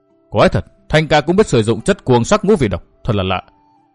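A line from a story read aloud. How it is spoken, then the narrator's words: Puzzled muttering. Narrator (Vietnamese): bất giác Cổ Ngọc Thanh lẩm bẩm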